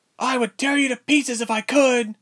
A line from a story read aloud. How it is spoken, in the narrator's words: screamed, pounding the door